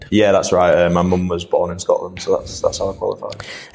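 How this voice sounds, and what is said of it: Yorkshire accent. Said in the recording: “the listeners will kind of detect a Yorkshire accent rather than a Scottish one”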